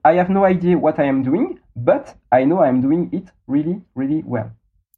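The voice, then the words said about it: English with French accent. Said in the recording (French): “Beautiful French accent”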